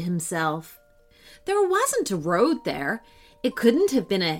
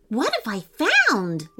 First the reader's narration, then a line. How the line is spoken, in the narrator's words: Lewis exclaimed